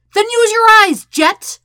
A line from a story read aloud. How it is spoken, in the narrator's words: Sokka nearly yells